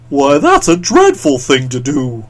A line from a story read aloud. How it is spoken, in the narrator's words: exclaimed the Scarecrow